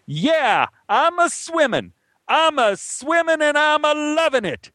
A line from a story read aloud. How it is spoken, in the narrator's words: I yelled back to him when I came up for air